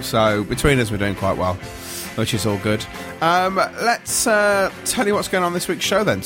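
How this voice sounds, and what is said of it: Congested voice from a cold. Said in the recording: “you can probably tell from the sound of my voice, I've got a cold going on as well”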